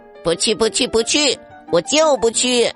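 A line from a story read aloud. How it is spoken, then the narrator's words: Yelling, refusing. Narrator (Chinese): 凯蒂叫嚷着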